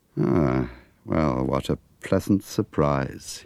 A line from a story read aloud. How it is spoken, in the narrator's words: said dryly